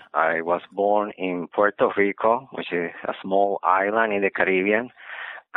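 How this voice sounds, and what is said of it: Spanish accent. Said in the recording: “as you can see from the accent, my mother tongue is Spanish.”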